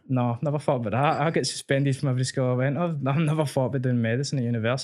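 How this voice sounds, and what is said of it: Thick Glaswegian accent. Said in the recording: “a working class former Ned with a thick Glaswegian accent.”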